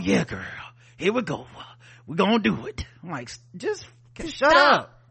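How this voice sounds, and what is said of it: Mocking imitation of a man's bedroom talk. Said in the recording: “I don't know why he talk like, Prince Joshua talk like a nigga trying to fix like a car that won't start.”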